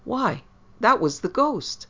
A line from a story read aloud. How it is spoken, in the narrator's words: at once exclaimed